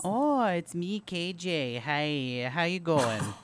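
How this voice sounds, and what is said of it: Strained attempt at Midwestern accent. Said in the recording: “What is that accent? ... It sounded like Christy Alley trying to do a Midwestern accent. ... She tried. She tried so hard.”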